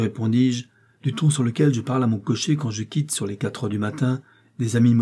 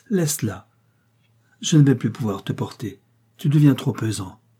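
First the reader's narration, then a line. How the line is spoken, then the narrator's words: Breathy whisper. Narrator (French): souffla Alice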